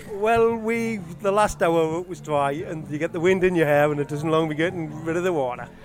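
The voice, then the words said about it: Northeast English accent. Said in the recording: “that's a northeast accent, is it?... That certainly is a northeast accent.”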